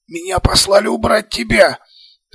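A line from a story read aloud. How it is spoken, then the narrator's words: Hurried hoarse wheeze. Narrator (Russian): Торопливо захрипел пленник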